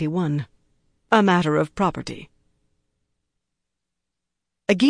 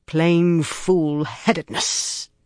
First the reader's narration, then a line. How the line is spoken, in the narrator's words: Bale growled